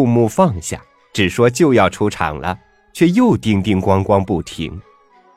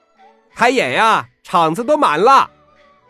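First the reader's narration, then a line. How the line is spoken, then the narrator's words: Shouting crowd. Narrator (Chinese): 下面就喊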